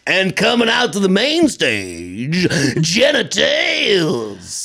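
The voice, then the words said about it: Cartoonish strip club announcer voice. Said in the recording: “That is cartoonish strip club announcer voice that I just did. ... That would be a Family Guy version of what you hear at a strip club. ... it'd be like a DJ-ish. ... It's like the caricature of that.”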